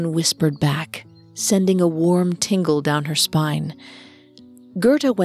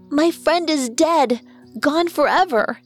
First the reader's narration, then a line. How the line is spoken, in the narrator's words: she wailed